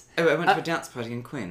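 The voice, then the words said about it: British accent. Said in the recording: “he's very British ... He's actually Swiss, but he is a British accent.”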